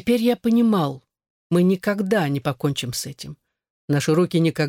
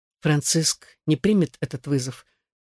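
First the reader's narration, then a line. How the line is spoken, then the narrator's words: Quiet remark. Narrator (Russian): тихо заметил я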